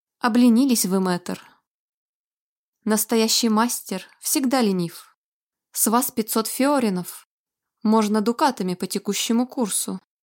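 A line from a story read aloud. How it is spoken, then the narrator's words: Reproachful sigh. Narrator (Russian): вздохнул и укоризненно произнес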